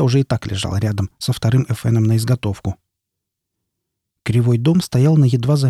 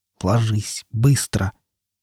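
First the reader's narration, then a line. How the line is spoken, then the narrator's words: Through gritted teeth. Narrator (Russian): процедил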